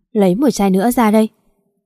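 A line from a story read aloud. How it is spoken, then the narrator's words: Drunken angry command. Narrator (Vietnamese): tức giận đặt mạnh xuống bà nói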